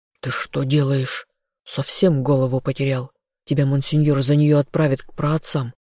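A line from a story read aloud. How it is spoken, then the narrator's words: Growled. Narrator (Russian): зарычал сообщник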